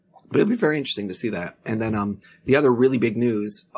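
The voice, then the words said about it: Worn-out, failing voice. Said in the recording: “as you can tell, my voice is just it's it's doing wonderful ... he's got m- not much left now”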